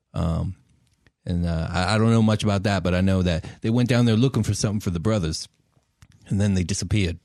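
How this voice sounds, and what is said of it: Thick, hard-to-understand put-on accent. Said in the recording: “your accent is atrocious, I have to say. It's very difficult to understand sometimes ... talk like we got rocks in our mouth”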